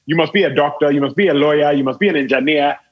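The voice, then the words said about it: Imitated Nigerian accent. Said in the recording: “in their Nigerian accent”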